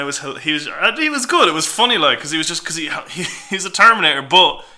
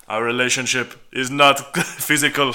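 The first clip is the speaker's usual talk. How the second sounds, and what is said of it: Austrian-accented Terminator impression. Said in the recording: “That's a good accent. Very good. I was like I was in Austria.”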